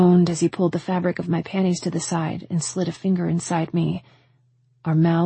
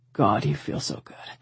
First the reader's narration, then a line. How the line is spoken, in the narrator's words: he growled